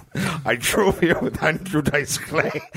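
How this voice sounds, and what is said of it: Imitated Scottish accent. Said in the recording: “Mr. Sean Connery ... I have a Scottish accent”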